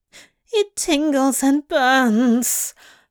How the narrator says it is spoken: the lad moaned

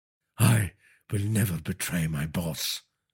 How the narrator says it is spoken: Surinder said feebly

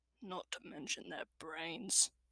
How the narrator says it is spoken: Clud muttered

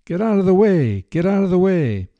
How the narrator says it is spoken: elephant driver, sitting high atop the elephant, hollered

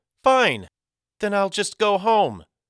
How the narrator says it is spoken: The first tear cascaded down Hattie's cheek as she cried

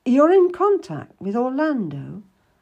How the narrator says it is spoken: I exclaimed

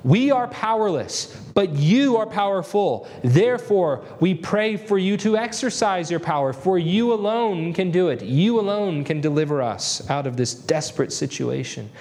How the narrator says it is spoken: he pleads with God

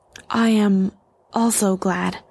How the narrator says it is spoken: Isamud stammered out

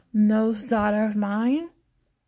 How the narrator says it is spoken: The woman slurs a little bit

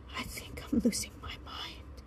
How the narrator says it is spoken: he whispered to her

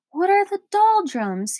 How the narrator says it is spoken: cried loudly

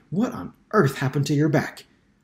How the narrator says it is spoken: exclaimed

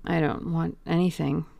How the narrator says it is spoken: murmured the young man

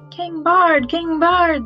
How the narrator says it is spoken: they shouted

